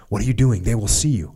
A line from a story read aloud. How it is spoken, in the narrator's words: I hiss